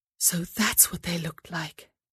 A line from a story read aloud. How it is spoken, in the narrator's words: she whispered to herself